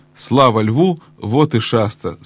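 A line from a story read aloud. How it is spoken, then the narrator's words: Plain. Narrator (Russian): сказал Бри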